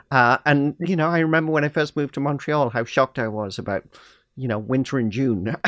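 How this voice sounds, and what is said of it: Non-Canadian foreign accent. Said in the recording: “you probably recognize from my accent, I'm not originally from Canada”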